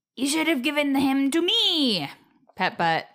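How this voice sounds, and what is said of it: Impression of cartoon demon character. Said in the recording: “What's your impression? ... That wasn't great.”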